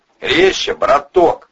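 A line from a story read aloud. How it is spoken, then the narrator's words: Shout. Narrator (Russian): крикнул Жилистый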